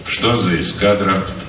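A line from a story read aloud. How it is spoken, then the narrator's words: Calm inquiry. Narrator (Russian): спокойно поинтересовался полковник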